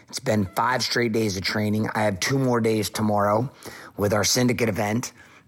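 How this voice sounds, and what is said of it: Worn-out, strained voice. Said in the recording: “My voice is fucked.”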